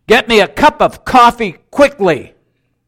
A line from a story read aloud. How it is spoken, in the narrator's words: he shouted into the phone